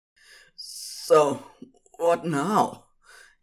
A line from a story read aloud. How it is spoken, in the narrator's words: He panted